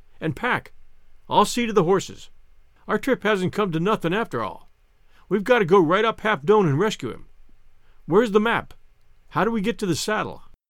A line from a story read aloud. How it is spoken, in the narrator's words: he cried